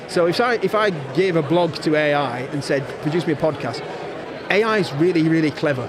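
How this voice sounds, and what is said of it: Strong Yorkshire accent. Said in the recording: “you can tell I've got a very strong Yorkshire accent.”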